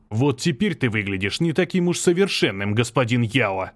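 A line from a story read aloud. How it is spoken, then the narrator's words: Growled. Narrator (Russian): прорычал Юнь Шенли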